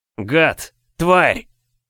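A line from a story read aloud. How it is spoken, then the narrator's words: Hoarse wheeze. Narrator (Russian): сипел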